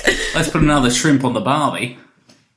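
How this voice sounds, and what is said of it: Put-on Australian accent. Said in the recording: “There's some weird Australian guy speaking. ... Did you say, good night, mate, get the Barbie on?”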